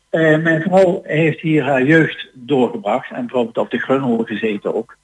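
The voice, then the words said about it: Southern Dutch Brabant/Limburg accent mix. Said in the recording (Dutch): “of een Brabants of een Limburgs accent ... het is een, een, mix ondertussen”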